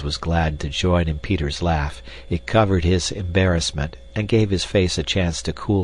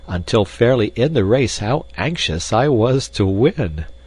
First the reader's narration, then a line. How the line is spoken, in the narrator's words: he added laughingly